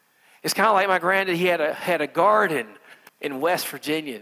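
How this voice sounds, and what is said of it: Rural American country accent. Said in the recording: “that's my country accent. That's how I normally talk”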